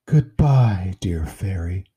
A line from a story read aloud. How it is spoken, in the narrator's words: said, breathing a sigh of relief